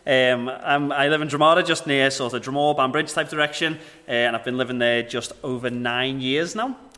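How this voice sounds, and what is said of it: Northern Irish regional accent. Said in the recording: “I live in Dromara, as you can tell from the accent.”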